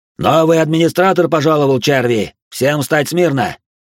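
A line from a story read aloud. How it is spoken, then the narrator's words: Soldier shouting. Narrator (Russian): выкрикнул из-за спины Юноны один из сопровождавших ее солдат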